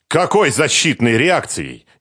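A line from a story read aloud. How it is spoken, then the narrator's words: Exasperated shout. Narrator (Russian): не выдержав, закричал Чхиидзе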